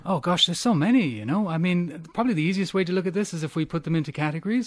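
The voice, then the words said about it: Noticeable non-local accent. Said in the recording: “Love your accent.”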